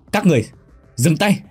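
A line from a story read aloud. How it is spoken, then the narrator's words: Loud shout. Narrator (Vietnamese): Khải Hiền quát lớn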